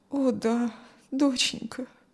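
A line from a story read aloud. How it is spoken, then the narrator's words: Sad mother. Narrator (Russian): грустно ответила мать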